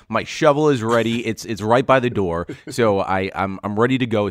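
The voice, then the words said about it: Hoarse, weakened voice. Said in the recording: “I lost my voice.”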